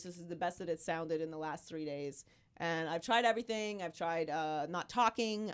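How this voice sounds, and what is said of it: Hoarse, nearly lost voice. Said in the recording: “I've been sick for 3 weeks ... I've completely lost my voice. ... So this is what I sound like now. ... And I keep hacking.”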